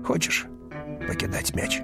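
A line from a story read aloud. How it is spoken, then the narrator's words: Muffled question. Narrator (Russian): один из них глухо спросил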